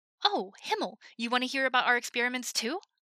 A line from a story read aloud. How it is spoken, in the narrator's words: Hanji asked eagerly